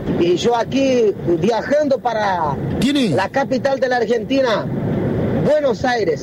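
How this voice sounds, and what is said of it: Unusual Brazilian-sounding accent in Spanish. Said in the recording (Spanish): “tiene un acento muy raro ... Brasilero.”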